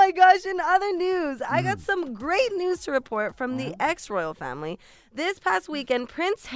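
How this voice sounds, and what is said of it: Usual voice. Nothing is said of it.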